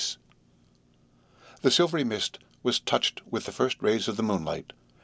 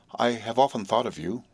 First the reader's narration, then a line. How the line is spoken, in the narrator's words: said Estella